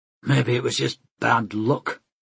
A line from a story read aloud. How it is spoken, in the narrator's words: Mikhail grunted